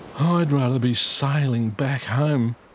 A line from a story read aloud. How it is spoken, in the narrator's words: moaned Pete